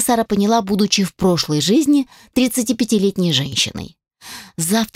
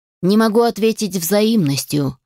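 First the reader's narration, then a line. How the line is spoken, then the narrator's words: Icy tone. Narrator (Russian): ледяным тоном произнес Алишер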